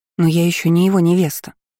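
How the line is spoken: Timid objection. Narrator (Russian): робко возразила Агна

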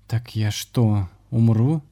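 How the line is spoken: Trembling question. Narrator (Russian): Дрогнувшим голосом спросила ведьма

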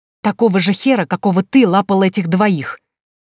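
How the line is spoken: Hissed. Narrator (Russian): зашипела я

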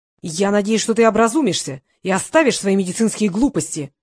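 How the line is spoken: Shouting. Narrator (Russian): кричал Гейтс

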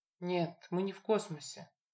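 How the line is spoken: Weary strained sigh. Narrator (Russian): вымученно вздохнул Люк

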